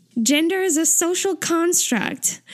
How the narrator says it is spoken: Taeyong shouts

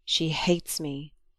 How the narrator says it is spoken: he murmured

